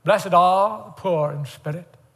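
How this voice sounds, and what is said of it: Put-on English accent. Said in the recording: “I better not do an English accent.”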